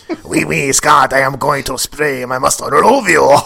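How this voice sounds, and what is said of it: Cartoonish French-accented character voice. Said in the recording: “How did Mustardo end up being French?”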